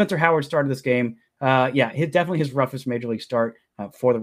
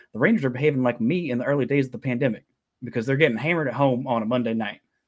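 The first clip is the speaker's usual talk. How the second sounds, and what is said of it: Weak Ted Lasso impression. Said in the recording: “extremely Ted Lasso voice ... my Ted Lasso impression ... it was not very good”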